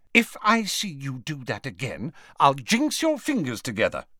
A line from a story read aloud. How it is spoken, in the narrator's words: she said sharply